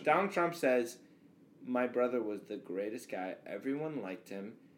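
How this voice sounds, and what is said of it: Imitates another person's voice. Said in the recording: “a good impression.”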